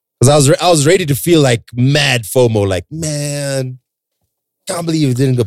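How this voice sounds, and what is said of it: Sick-sounding voice. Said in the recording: “As you can hear from my voice, I'm still a bit sick.”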